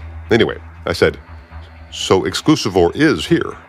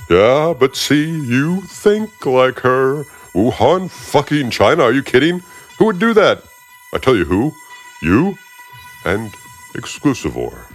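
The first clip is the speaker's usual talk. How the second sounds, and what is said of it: Put-on character voice. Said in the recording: “doing that voice”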